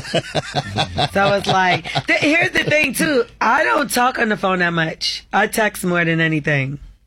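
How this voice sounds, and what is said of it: Strained voice giving out. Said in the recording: “my voice is kind of giving out”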